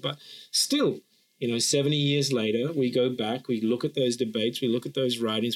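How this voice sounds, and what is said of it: Australian accent. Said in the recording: “including the one that gave me this accent, Australia”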